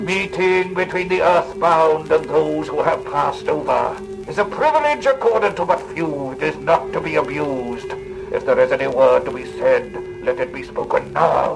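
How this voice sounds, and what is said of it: Badly disguised voice. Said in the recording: “rattle off all this dribble in a badly disguised voice”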